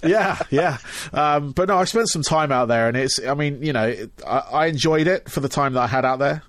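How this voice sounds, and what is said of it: English accent. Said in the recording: “as you can tell by my accent, I am actually from England.”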